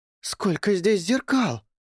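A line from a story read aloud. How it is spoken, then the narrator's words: Exclaimed. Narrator (Russian): воскликнула Кэти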